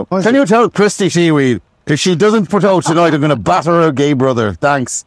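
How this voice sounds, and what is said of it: Put-on Irish accent. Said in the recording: “apologies to any Irish people. You've suffered enough. You don't need me doing your accent.”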